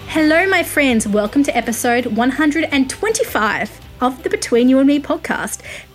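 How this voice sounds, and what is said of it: Australian accent. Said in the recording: “I am a music journalist based in Australia, if you couldn't pick it from my accent.”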